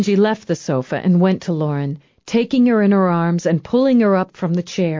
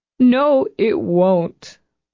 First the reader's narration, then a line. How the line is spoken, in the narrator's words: Lauren said miserably when the tears eased